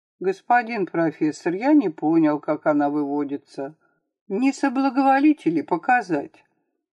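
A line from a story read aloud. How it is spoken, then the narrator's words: Innocent tone. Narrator (Russian): сказал он невинным тоном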